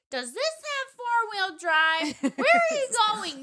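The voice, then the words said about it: Impression of Home Alone neighbor kid. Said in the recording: “that like neighbor Potter. Kid that comes over in Home Alone where he's like ... I thought that was a pretty good impression for me not remembering.”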